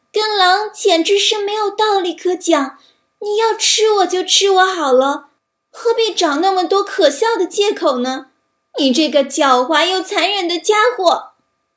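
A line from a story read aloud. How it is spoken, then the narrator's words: Lamb's desperate shout. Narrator (Chinese): 小羊绝望地喊道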